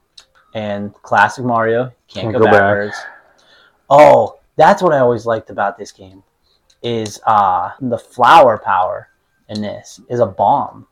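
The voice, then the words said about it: Pittsburgh accent. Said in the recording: “my Pittsburgh accent”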